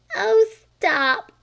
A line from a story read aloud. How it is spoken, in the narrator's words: cried Flame